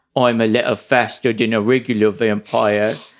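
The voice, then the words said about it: Mushy imitation of Klaus's accent. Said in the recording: “what was that accent? ... It's my Klaus accent ... it's like Klaus if he had like a couple of marshmallow peeps in his mouth.”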